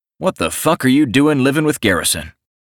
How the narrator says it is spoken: I snarled before I could stop myself

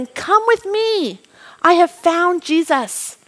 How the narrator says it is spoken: Andrew ran towards his brother shouting

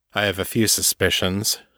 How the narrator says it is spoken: Janus said grimly

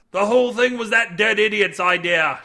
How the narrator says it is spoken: shouted a young man

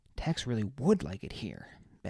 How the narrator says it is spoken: Baz muttered

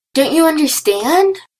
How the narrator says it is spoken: Daphne's voice was barely below a shriek

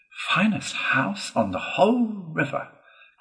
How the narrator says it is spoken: cried Toad, boisterously

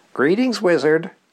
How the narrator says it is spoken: the phone chirped

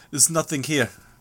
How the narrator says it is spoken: he added, in a heavily accented voice

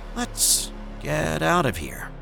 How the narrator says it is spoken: In the most calm voice I could muster at that moment, I said

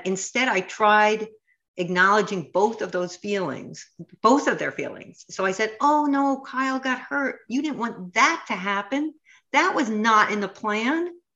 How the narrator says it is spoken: she said

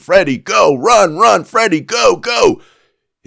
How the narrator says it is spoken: People are screaming

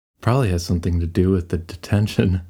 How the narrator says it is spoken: Marianne laughed

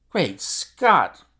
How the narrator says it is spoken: cried the athlete

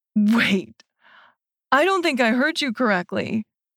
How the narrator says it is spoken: Hank says through a choked laugh

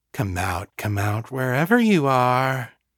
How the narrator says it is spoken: Victor said, his voice chillingly calm compared with the rage that burned inside him

